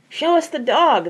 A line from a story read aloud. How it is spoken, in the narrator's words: they begged